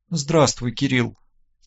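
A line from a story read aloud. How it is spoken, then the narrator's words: Quiet voice. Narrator (Russian): тихо проговорила Мария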